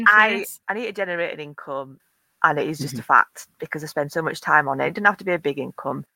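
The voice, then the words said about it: Yorkshire accent. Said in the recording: “The Yorkshire accent is so trusted.”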